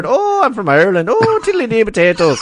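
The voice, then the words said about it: Put-on Irish accent. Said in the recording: “the only way I can ever do an Irish accent”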